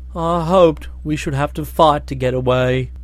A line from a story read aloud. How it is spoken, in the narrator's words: he said sadly